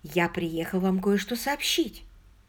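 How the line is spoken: Quiet, in French. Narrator (Russian): тихо сказал он по-французски

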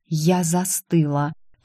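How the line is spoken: Whisper. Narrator (Russian): милорд Швангау прошептал

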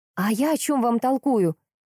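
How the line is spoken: Impatient exclamation. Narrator (Russian): с некоторым нетерпением в голосе воскликнула Горчакова

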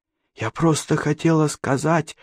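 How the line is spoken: Hesitant whisper. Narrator (Russian): прошептала наконец Катерина

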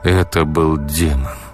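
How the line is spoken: Tired. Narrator (Russian): устало уточнил Егор

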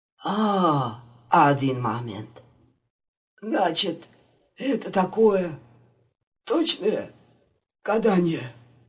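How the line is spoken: Hoarse, barely conscious. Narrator (Russian): Прохрипел Виктор, едва очнувшись

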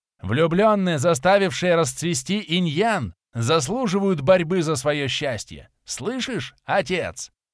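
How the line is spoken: Young dragon shouting. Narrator (Russian): прокричал дракоша Ренаксу

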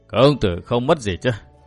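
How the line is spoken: Smiling old man. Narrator (Vietnamese): Lão nhân mỉm cười nói

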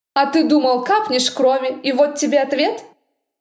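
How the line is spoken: Snapping retort. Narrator (Russian): Огрызнулась

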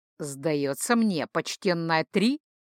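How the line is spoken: Snorting, wry. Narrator (Russian): хмыкнул капитан

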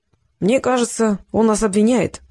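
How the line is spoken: Sighing. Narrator (Russian): вздохнул Стрекалов

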